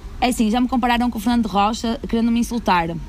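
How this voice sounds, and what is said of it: Porto Portuguese accent. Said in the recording (Portuguese): “falar a Porto ... basta eu abrir a boca e ter sotaque a Porto que Lisboa já ri”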